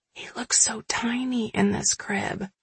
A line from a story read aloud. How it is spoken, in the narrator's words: whispering